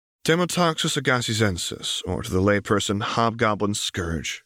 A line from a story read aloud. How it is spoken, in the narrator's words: she murmured